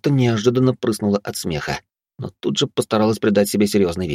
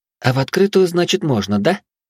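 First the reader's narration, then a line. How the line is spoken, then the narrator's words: Loud whisper in ear. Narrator (Russian): Югай громко зашептала мне на ухо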